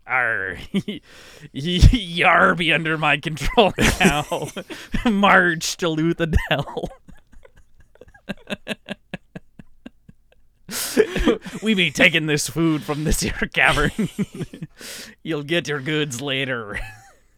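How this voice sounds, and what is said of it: Put-on pirate accent, rolled R's. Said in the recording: “all of our voices devolve to the same accent ... Pirate Elend ... two R's that you have to roll”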